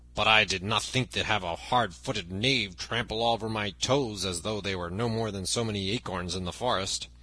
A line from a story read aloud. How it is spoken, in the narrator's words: grumbled the other